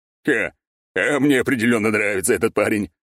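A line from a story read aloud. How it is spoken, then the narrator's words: Big man chuckling. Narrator (Russian): хохотнул здоровяк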